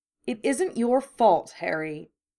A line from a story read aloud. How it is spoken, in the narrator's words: Hermione snapped, even through her tears